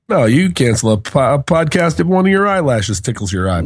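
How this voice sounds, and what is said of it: Sounds a little sick. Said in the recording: “I'm a little sick ... you sound a little sick”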